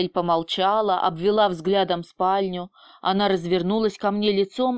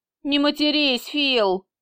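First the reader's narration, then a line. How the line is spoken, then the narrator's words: Loud masculine laugh. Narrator (Russian): громко рассмеялась моя помощница мужским смехом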